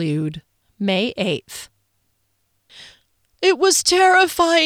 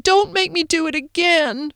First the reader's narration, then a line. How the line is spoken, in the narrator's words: Phoenix pleaded